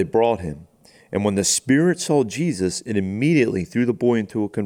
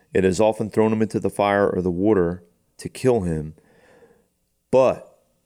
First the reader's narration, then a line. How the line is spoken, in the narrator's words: the dad says